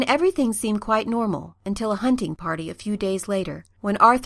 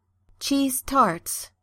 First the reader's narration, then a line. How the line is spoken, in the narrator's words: Merlin repeated obediently